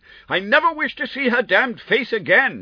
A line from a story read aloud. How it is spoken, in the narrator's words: he shrieked